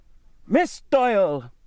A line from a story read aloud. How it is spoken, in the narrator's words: screamed in a livid rage